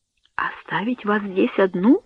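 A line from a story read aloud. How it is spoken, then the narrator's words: Frightened whisper. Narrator (Russian): с испугом прошептала Берта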